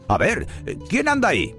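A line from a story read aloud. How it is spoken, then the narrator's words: Watchman shouting. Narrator (Spanish): El vigilante del cementerio gritó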